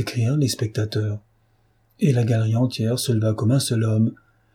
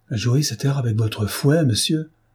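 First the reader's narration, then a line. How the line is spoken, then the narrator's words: Countess exclaiming. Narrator (French): s'écria la belle comtesse de Chalon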